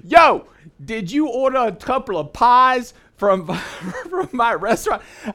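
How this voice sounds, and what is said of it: Heavy Bronx accent. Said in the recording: “a heavy Bronx accent”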